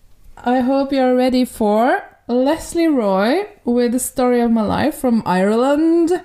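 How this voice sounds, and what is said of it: Unconvincing put-on Irish accent. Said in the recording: “this is my Irish accent ... I can't uh, tell the difference between your Irish accent and your actual Norwegian”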